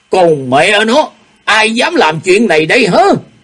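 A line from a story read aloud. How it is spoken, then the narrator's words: Angry shout. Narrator (Vietnamese): Ô Hữu Đạo nổi giận quát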